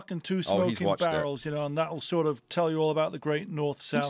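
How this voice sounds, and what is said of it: Northern English accent. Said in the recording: “you got a northern monkey accent ... that's a northern accent”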